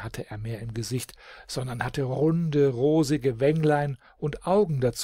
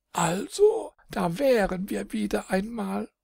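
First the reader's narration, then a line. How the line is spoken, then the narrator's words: Laughing. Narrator (German): und lachte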